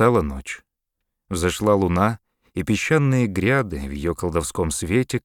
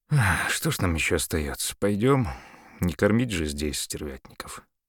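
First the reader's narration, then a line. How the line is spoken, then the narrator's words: Tired voice. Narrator (Russian): Американец устало проговорил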